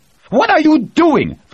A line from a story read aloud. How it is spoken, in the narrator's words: Ferraro screeched from the doorway